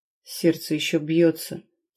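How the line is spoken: Quiet, warrior. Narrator (Russian): тихо произнес воин

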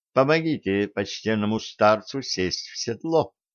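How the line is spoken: Plain. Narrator (Russian): сказала Элвик

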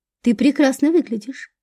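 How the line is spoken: Soft. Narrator (Russian): мягко сказал Федор

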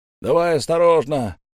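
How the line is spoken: Shouting. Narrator (Russian): крикнул кто-то из людей

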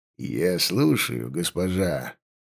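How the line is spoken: Gentle. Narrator (Russian): мягко сказал он

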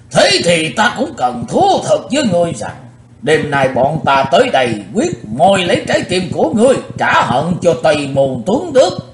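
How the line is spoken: Loud shout. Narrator (Vietnamese): Lão râu ria sầm soạn quát lớn

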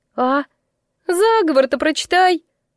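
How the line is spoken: High-pitched demand. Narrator (Russian): потребовала она высоким голосом

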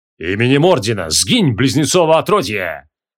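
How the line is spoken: Thundering. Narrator (Russian): прогремел генерал

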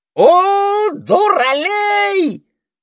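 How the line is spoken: Parrot's muffled shriek. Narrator (Russian): завопил попугай во мраке Освальдовой пасти

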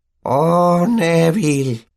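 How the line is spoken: Old woman sighing. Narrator (Spanish): oyó suspirar a la anciana

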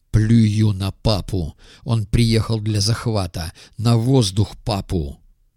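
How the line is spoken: Hot breathy whisper in ear. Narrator (Russian): Придурок чуть не влез носом мне в ухо и зашептал, дыша горячо

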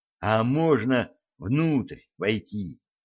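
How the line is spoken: Timid question. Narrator (Russian): робко спросил Джим

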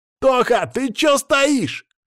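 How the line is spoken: Shouting. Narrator (Russian): кричал Саня

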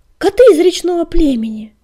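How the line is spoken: Loud exclamation. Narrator (Russian): громко воскликнул Огнегриф

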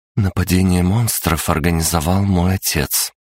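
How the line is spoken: Even-toned. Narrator (Russian): ровным голосом проговорила София

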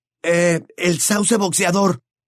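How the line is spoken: Exclaimed. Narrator (Spanish): exclamó Harry

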